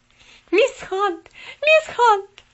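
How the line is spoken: Shouting. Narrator (Russian): закричала она

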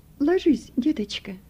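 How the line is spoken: Gentle, affectionate. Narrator (Russian): ласково проговорила врач Пушкина

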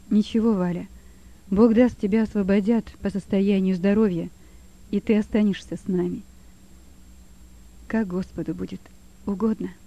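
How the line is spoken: Quiet speech. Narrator (Russian): говорила тихо Валя

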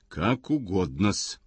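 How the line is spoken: Through clenched teeth. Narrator (Russian): Брехунов говорит сквозь зубы

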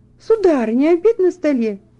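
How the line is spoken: Exclamation. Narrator (Russian): воскликнула она

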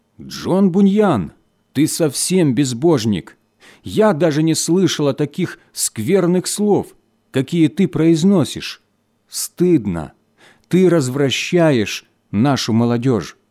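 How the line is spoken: Indignant woman's exclamation. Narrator (Russian): женщина, известная своим распутством, с негодованием воскликнула

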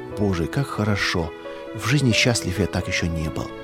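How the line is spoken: Soft blissful whisper. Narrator (Russian): Он витал своей детской прекрасной душой в голубом белооблачном небе и тихонько шептал

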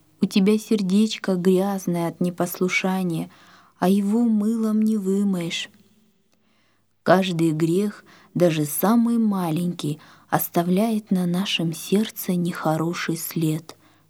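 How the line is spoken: Plain father. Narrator (Russian): сказал папа

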